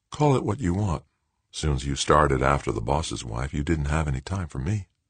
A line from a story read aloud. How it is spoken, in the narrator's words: Her voice deathly calm, Melissa replied